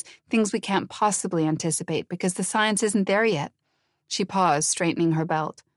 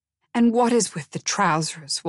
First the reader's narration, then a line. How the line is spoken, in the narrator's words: Walter said, his teeth clenched so tightly the words barely emerged